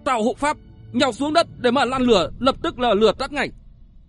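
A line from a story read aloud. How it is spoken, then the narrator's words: Loud urgent shout. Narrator (Vietnamese): Thiên Long đường chủ Tất Hồng Xanh hét lớn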